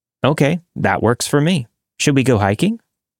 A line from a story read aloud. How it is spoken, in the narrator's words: He quickly answered